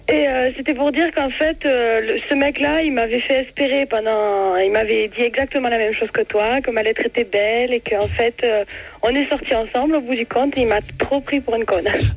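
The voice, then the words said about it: Sing-song regional French accent. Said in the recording (French): “Oh, quel accent... Ah, mais c'est magnifique... mon accent... c'est beau, on entend chanter”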